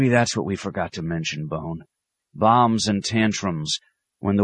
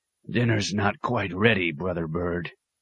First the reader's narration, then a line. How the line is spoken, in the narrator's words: he told it irritably